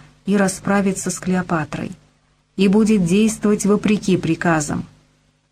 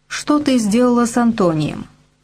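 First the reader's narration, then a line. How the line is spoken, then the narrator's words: Plain. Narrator (Russian): спросил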